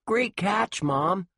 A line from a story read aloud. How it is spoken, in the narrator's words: Josh yelled